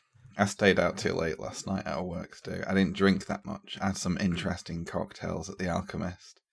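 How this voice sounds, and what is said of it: Slightly scratchy voice. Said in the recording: “that's why my voice is a little bit scratchy, because I had to talk really loud.”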